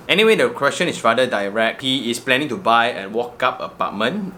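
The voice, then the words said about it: Sick voice from the flu. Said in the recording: “I've yet to recover from the flu, and this flu has been around for very long ... for 2 weeks, my voice is like that”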